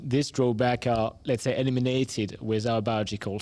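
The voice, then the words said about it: Non-native European accent. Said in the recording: “I'm sure our listeners could tell from your accent, you're not native here to Cedar Rapids ... working in Europe”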